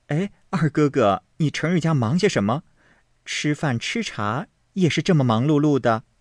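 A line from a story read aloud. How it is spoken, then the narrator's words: Laughing together. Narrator (Chinese): 探春、惜春都笑道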